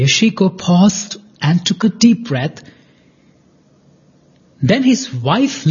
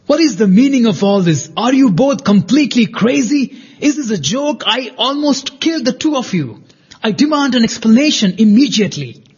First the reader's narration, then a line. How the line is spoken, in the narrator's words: shouted Yoshiko